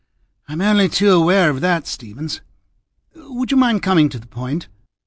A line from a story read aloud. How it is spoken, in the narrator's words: Cardinal gave a sigh and said